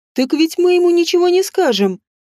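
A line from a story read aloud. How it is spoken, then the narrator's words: Cheerful interruption. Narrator (Russian): весело прервал меня Шет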